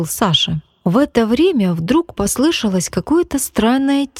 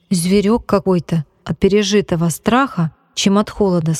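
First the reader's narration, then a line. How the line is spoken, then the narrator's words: Plain. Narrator (Russian): сказал Костя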